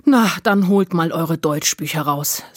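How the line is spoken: Sighing. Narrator (German): seufzte sie

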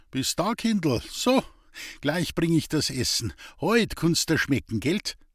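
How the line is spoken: Laughing. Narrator (German): Ein Lachen

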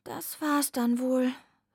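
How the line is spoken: Sighing. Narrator (German): seufzte

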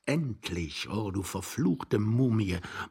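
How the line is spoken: Young man muttering. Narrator (German): murmelte der junge Mann unterm Bett

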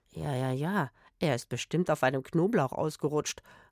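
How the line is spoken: Murmured. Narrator (German): raunte Rufus

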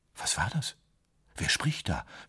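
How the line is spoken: Barely audible whisper. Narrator (German): flüsterte er kaum hörbar

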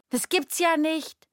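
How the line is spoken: Calls out. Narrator (German): ruft sie

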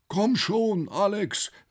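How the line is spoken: Called out. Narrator (German): rief ein Dritter

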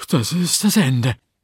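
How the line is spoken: Whimpering. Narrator (German): wimmerte von der Rose

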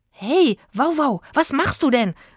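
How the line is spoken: Worried call. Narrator (German): rief ihm Rufus besorgt hinterher

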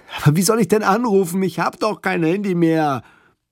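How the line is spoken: Man calling, nearly desperate. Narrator (German): Der Mann klang irgendwie fast verzweifelt, als er rief

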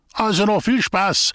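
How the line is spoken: Called out. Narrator (German): rief der Schlammingerfried

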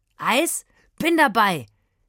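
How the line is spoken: Calling out. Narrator (German): rief Aslan

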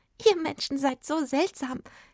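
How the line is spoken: Giggling fairy. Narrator (German): kicherte die Fee

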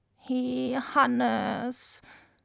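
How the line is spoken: Reproachful female croak. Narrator (German): krächzte sie vorwurfsvoll

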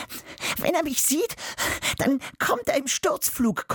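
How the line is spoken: Breathless panting. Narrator (German): keucht sie

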